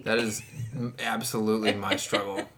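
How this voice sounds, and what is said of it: Western New York accent. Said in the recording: “That was very Western New York accent right there”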